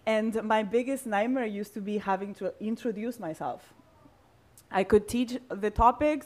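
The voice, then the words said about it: Non-native English, Spanish-speaker accent. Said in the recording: “English is not my first language, in case you couldn't tell. ... I speak Spanish. I say some words in a weird way because I'm not from here.”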